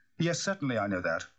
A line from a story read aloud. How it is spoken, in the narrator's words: said the doctor a trifle sharply